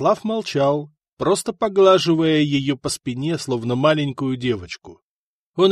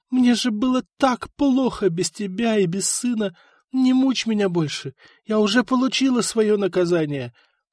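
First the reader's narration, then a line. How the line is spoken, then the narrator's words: Sobbing. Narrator (Russian): всхлипывала она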